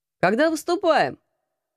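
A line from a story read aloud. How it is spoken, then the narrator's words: Loud question. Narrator (Russian): громко спросил Алекс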